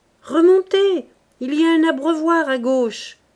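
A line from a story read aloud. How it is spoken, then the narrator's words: Exclaimed. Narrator (French): s'écria-t-il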